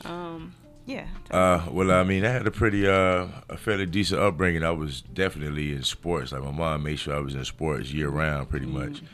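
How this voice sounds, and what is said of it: Thick Southern country Alabama accent. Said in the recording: “that accent so thick ... that accent is okay. Really thick ... I'm from Montgomery, Alabama ... all of my people there are from the country, so that's where that accent thickness come from”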